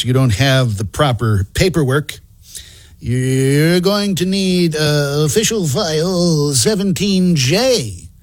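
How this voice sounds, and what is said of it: Geeky bureaucrat character voice. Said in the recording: “my imitation of a geeky bureaucrat”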